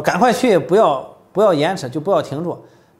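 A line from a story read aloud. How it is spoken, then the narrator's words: Loud call. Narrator (Chinese): 约拿丹这大声呼叫说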